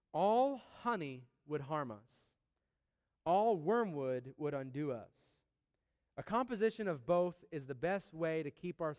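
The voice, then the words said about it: Slow, deliberate reading. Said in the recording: “I want to read it slowly. ... I'm going to read it slow”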